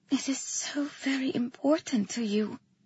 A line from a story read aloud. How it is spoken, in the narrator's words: I whispered